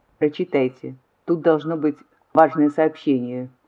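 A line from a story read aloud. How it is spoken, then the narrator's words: Cold and calm, lady. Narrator (Russian): холодно и спокойно сказала госпожа Адеркас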